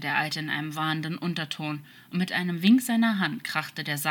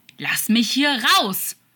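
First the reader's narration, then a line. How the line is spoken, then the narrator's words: Shout. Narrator (German): schrie Crawley in die Finsternis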